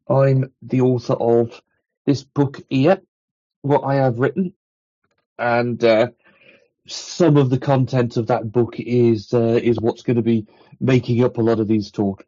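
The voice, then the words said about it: Strong accent. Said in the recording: “this rather outrageous accent, I'm in the UK at the moment”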